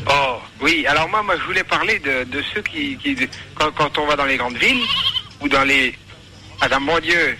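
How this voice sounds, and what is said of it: Strong regional French accent. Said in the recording (French): “T'as pas un accent si attiré au couteau ... Ah, mon Dieu, il a de l'accent”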